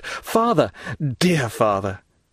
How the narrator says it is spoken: a well-known voice behind him exclaimed

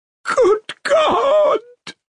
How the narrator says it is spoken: broke in an awful wail from her bosom

